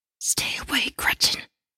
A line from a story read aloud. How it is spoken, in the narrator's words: whisper through clenched teeth